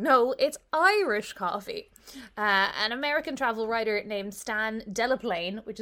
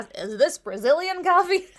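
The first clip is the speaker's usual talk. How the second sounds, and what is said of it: Put-on American accent. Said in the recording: “Do the accent. ... Some American asked”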